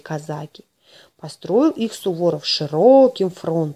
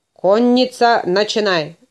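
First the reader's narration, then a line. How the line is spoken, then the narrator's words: Shouting. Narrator (Russian): закричал Суворов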